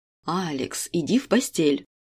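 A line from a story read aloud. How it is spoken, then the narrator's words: Stern. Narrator (Russian): строго произнесла Валентина Яковлевна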